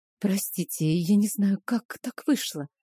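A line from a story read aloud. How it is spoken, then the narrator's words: Embarrassed whisper. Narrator (Russian): смущенно прошептала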